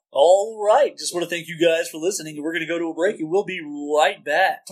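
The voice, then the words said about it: Polished podcast host voice. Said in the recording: “go into your podcast voice and take us out”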